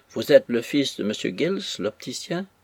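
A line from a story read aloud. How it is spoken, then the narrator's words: Plain. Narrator (French): m'a-t-il dit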